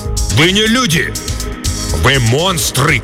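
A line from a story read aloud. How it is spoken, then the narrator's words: Old man shouting. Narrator (Russian): крикнул старый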